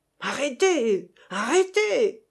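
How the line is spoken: Captain shouting. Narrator (French): cria le capitaine Bourcard

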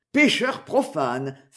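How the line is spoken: Mock churchly exclamation. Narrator (French): s'écria Richard, cherchant à imiter le langage habituel aux gens d'église

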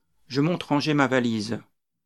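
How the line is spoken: Sighing. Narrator (French): dis-je en soupirant

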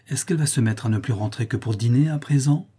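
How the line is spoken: Timid. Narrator (French): fit timidement l'ex-professeur

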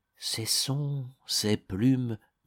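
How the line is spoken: Murmuring. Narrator (French): murmure Jean-Bois

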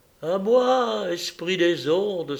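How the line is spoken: Exclaiming. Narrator (French): s'écria-t-elle

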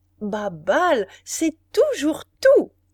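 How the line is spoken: Duchess exclaiming. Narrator (French): s'écria la duchesse de Guermantes

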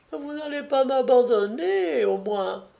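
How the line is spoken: Whimpering. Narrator (French): dit-elle en pleurnichant

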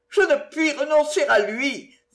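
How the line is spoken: Tearful cry after anger. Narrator (French): s'écria-t-elle en revenant de la colère aux larmes

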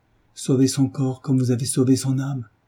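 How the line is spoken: Exclaimed. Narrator (French): s'écria la jeune femme

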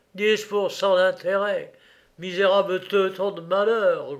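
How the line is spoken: Growling injured man. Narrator (French): gronda l'homme étendu sur la civière

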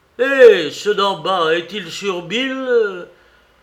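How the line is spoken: Blind man shouting again. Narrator (French): cria de nouveau l'aveugle

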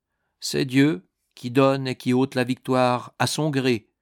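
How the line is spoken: Calm voice. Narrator (French): dit l'anneau d'une voix calme

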